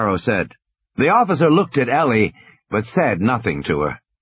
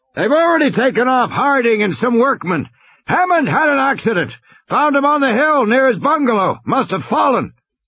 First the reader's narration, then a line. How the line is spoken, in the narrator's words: Muldoon shouted